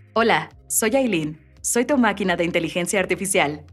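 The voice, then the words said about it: Robotic AI assistant voice. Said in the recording (Spanish): “tienes voz de robot. Alexa... hacer justamente la voz de Aileen... creo que es un robotcito”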